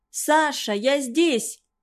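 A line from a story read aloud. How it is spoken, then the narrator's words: Shouted. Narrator (Russian): крикнула она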